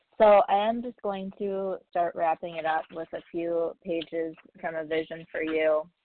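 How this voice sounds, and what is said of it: Strained, fading voice. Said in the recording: “I'm losing my voice. ... Just got like a tickle in my voice.”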